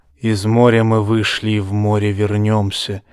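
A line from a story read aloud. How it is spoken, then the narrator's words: Very quiet. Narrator (Russian): начал Эйрон тихо, заставляя собравшихся напрягать слух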